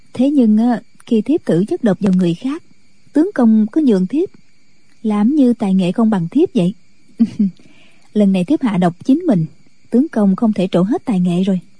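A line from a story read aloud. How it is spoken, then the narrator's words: Smiling woman. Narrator (Vietnamese): Thiếu phụ mỉm cười nói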